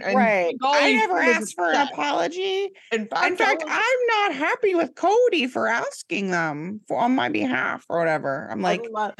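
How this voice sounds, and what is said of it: Imitates another person's voice. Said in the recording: “I love your Robin impression ... I don't even know if I sound like her, but I'm trying.”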